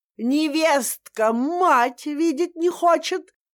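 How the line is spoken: Yelling even louder. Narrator (Russian): Заорала она еще громче

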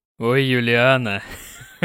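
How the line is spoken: Laughing. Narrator (Russian): Засмеялся

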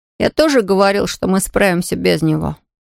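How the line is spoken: Sigh. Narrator (Russian): вздохнул Том

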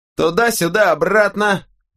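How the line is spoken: Shouted. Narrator (Russian): выкрикнул кто-то

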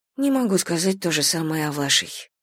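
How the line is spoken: Quiet reply. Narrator (Russian): тихо ответила Зина

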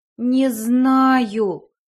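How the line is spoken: Groaning. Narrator (Russian): простонала я

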